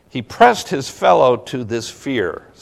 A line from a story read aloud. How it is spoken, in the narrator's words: says Donne